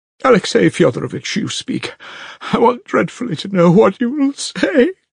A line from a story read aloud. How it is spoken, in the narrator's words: cried Katerina Ivanovna, and burst into tears